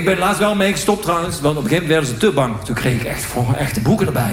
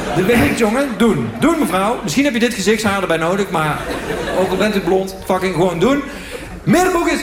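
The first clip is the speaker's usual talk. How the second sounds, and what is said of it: Put-on Moroccan accent. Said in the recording (Dutch): “Altijd Marokkaans accent”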